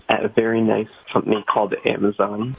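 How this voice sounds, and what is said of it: Talking very quietly. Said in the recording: “Why are you talking so quietly?”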